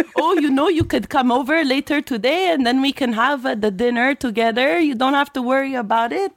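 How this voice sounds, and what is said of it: Put-on French Canadian accent. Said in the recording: “I could also speak with a French Canadian accent. ... speaking in a broken English ... That's the same voice.”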